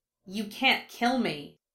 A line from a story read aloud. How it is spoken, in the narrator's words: she hissed